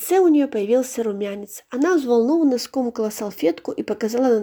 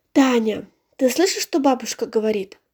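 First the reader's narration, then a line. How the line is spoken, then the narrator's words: Mother's sad question. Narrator (Russian): грустно спросила мама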